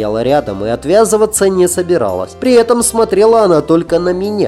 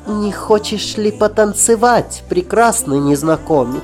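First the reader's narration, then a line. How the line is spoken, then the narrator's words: Saccharine sugary question. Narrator (Russian): Слащаво-приторным голосом спросила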